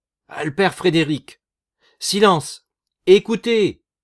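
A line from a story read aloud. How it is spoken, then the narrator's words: Worker's loud voice. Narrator (French): l'ouvrier d'une voix forte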